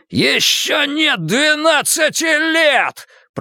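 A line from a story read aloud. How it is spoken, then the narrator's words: Shouting. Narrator (Russian): прокричал он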